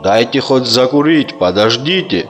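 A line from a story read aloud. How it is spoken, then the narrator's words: Plain. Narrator (Russian): ответил Мурат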